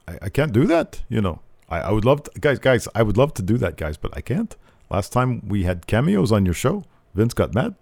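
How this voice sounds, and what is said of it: Imitates another person's voice. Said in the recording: “my Kevin Owens impression ... It's getting there.”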